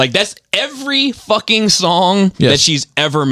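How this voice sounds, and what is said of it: Usual voice. Nothing is said of it.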